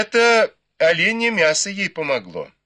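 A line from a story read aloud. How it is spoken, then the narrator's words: Laughing together. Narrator (Russian): засмеялись сестры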